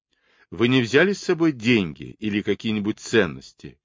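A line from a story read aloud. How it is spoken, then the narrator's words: Shouting after them. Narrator (Russian): крикнул им вдогонку Кэт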